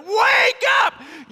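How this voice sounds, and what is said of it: Yelled command. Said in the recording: “Why are you yelling?”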